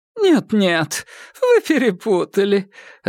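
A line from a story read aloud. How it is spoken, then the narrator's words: Laughing. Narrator (Russian): рассмеялась миссис Бэйнс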